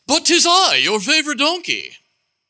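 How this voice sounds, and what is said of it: Put-on distinguished British accent. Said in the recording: “still in his distinguished British accent”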